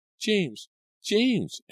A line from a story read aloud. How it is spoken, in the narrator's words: Angelica shrieked